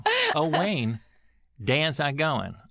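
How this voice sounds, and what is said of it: Imitates another person's voice. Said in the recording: “This is my impression of you.”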